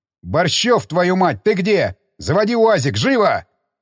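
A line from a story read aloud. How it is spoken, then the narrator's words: Officer yelling. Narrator (Russian): заорал офицер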